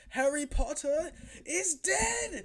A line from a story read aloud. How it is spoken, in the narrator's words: Voldemort's haunting voice when he screams